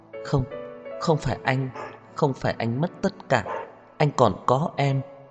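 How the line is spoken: Soft but agitated. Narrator (Vietnamese): Cô kích động, nhỏ nhẹ nói

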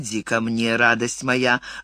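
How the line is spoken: Purring tenderly. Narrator (Russian): замурлыкал он

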